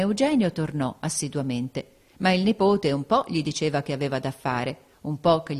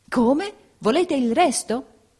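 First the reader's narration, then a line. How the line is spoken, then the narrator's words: Shocked exclamation, turning pale. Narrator (Italian): esclamò il principe impallidendo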